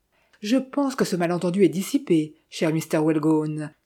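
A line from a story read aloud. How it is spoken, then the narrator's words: Jovial tone. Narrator (French): dit-il d'un ton jovial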